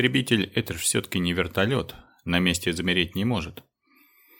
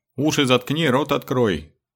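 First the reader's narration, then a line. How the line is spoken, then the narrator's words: Yell. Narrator (Russian): заорал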